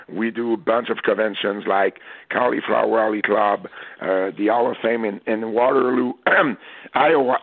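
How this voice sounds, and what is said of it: Hoarse, fading voice. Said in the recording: “I'm losing my voice, guys... I'm transforming into that big voice”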